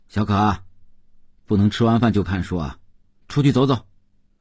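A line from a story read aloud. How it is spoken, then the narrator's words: Calling out. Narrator (Chinese): 邓文轩叫道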